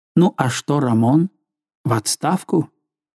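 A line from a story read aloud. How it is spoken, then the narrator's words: Muttering. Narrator (Russian): Он пробормотал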